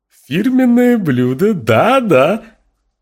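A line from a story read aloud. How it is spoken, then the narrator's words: French, ringing laugh. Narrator (Russian): сказала она по-французски и звонко рассмеялась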